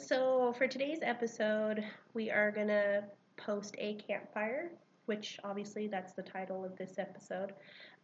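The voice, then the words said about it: Slightly congested voice from cold. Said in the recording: “I have a little bit of a cold”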